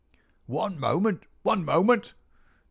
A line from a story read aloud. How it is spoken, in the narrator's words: cried a querulous voice, and we looked up to find a queer little old man jerking and twitching